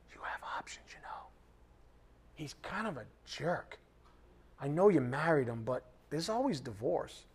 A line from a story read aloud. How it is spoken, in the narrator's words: the world will whisper in your ear and say